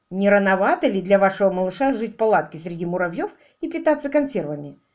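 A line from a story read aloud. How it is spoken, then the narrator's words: Laughing. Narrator (Russian): Лори засмеялась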